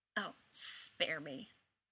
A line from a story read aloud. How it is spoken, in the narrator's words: he mutters